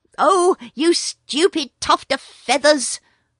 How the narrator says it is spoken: said Ricky Tikki angrily

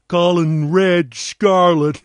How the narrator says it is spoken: Harelip sneered

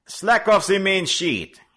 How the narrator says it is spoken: he called out

